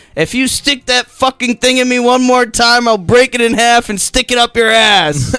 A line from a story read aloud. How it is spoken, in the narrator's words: shouted